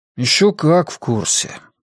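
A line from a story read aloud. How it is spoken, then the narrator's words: Sighing. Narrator (Russian): вздохнул Ратти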